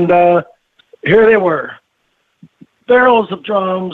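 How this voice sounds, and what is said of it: Usual voice. Nothing is said of it.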